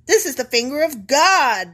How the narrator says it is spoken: the magicians exclaimed to Pharaoh

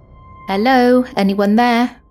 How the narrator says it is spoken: called out

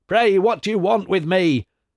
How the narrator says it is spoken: cried the Old One as soon as he could take breath

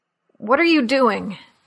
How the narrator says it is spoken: he asked in a choked voice

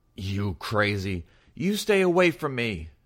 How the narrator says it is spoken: screamed

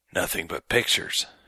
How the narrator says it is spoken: he muttered hoarsely

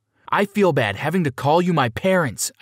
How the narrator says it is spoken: I screamed

